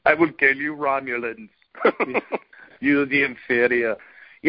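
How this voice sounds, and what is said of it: Imitates another person's accent. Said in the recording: “I'm going to deliver my lines with an Arnold Schwarzenegger accent”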